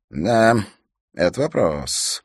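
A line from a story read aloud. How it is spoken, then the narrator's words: Drawling. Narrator (Russian): протянул рейнджер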